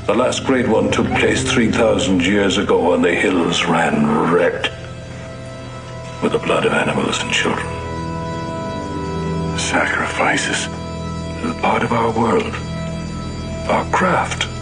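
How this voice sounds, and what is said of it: Irish accent. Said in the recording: “Irish accent here.”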